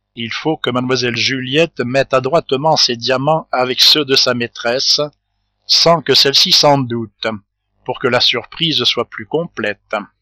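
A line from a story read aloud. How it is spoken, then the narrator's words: Whispered. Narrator (French): Monsieur Darville lui dit tout bas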